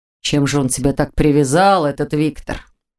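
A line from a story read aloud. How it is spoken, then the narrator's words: Grumbling, cooling down. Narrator (Russian): Уже немного остывая, проворчал Аркадий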